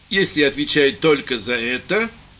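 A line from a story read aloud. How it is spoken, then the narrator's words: Gloomy. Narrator (Russian): мрачно проговорил лейтенант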